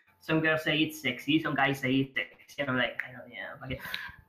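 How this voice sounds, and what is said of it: Non-native English accent, throaty sound. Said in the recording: “I'm, like, dot in English ... my extremely sexy accent ... you sound like you have, like, seven discs in your throat at all times ... How many discs do you have in your mouth at all times to speak like this?”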